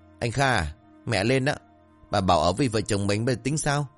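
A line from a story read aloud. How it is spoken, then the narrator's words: Resentful, sulky voice. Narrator (Vietnamese): Vân gọi chồng bằng giọng hậm hực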